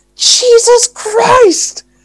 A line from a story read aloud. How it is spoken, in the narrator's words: exclaimed Thomas Clayson